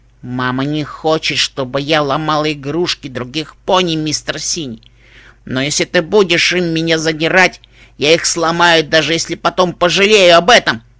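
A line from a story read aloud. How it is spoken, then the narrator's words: Irritated sigh. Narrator (Russian): Пуппи раздраженно вздохнула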